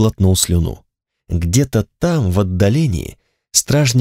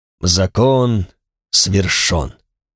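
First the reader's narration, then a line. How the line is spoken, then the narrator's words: Solemn proclamation. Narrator (Russian): торжественно провозгласил обладатель цепи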